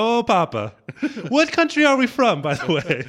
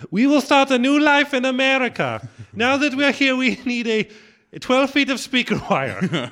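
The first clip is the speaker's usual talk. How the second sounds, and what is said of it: Vague put-on foreign accent. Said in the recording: “our nondescript accents ... It sounds more like a vocal affectation.”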